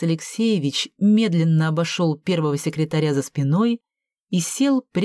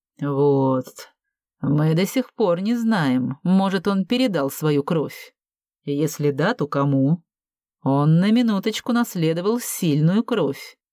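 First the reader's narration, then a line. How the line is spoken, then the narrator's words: Through gritted teeth. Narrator (Russian): процедил Борис Алексеевич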